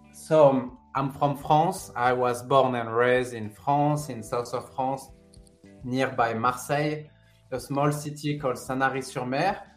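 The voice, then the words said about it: French-accented English. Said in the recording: “you do have an accent”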